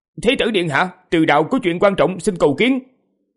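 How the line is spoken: Raised voice. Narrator (Vietnamese): họ Từ cao giọng nói

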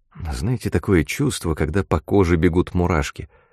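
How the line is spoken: Plain question. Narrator (Russian): спросила Мот

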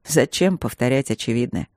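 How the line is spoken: Scornful snort. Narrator (Russian): фыркнул он

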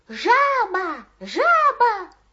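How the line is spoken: Silly-voiced shout. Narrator (Russian): закричал он очень глупым голосом

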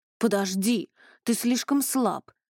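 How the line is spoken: Exclaimed. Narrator (Russian): воскликнул Ронни

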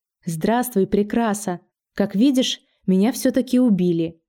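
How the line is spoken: Calm, faintly smiling. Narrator (Russian): Смерть улыбнулась уголками губ и совершенно спокойно произнесла

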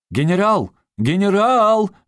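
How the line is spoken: Loud call. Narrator (Russian): громко окликнул кто-то

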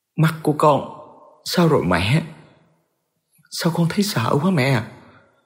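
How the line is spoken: Trembling, frightened voice. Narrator (Vietnamese): Mai ... cô mới nói với giọng run rẩy và sợ hãi

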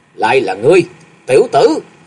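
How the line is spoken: Arrogant old man's shout. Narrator (Vietnamese): Lão còn cao ngạo quát lên

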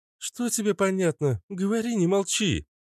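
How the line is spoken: Exclaimed, raising voice. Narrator (Russian): повысив голос, воскликнула Наташа

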